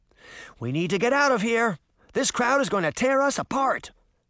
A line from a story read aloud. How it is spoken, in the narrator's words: Sabrina cried